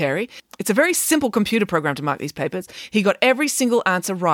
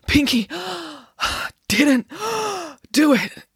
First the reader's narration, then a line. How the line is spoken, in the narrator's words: gasped Friday